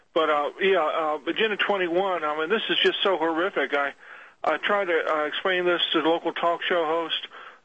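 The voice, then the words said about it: Sick, congested-sounding voice. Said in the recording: “I'm calling sick today at work. I've got a cold. I'm a little bit better now.”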